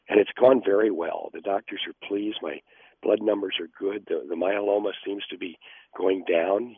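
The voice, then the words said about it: Hoarse, laryngitis-affected voice. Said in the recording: “this little laryngitis I've got this morning”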